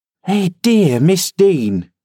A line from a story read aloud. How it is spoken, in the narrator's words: she exclaimed